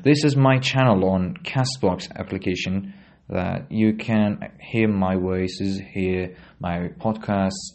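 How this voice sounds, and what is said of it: British accent. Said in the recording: “my accent is British”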